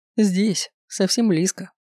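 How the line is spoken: Snorting werewolf. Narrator (Russian): хмыкнул этот оборотень

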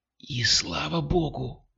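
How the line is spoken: Whispered reply. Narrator (Russian): прошептала в ответ Кристина

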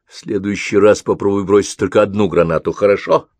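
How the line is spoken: Grumbling. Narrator (Russian): проворчал Ковальский

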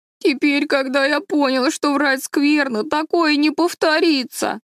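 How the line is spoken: Babbling through sobs. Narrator (Russian): лепетал Дэви между всхлипываниями

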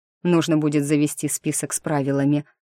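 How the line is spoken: Plain. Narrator (Russian): сказал он

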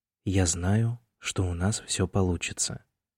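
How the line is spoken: Quiet. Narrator (Russian): тихо сказал он

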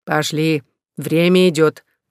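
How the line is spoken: Muffled grumbling behind door. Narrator (Russian): пробурчал за дверью Фёдор

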